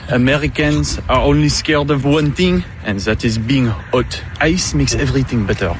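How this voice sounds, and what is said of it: Foreign accent. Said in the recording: “He has an accent. ... I thought he said blackfast.”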